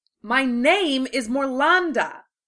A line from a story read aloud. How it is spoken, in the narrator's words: shouted the chariot woman